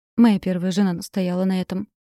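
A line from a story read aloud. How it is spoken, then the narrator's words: Calm explanation. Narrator (Russian): спокойно объяснил Никита Сергеевич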